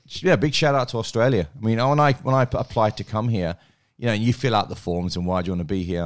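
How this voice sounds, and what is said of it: Cockney English accent. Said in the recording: “you still got that Cockney accent”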